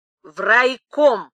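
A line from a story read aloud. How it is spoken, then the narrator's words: Stern. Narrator (Russian): уже строго сказал секретарь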